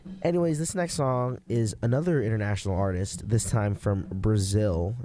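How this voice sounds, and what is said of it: Low, under-the-weather voice. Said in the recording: “my voice is a little low right now. I'm a bit under the weather due to allergies”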